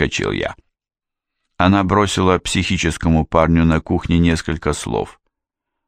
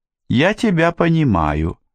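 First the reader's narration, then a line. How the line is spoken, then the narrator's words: Sweet innocent little voice. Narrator (Russian): Наташа произнесла милым невинным голоском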